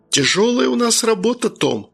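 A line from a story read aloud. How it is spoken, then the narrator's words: Sighing. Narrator (Russian): вздохнул я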